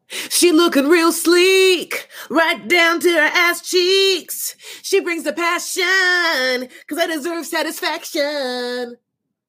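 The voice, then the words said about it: Hollering imitation of a singer. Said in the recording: “this man in a booth hollering into a mic ... here's my impression ... That's a great version of it.”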